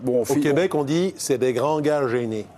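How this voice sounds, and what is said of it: Put-on Québécois French accent. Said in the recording (French): “vous aussi vous faites l'accent québécois.”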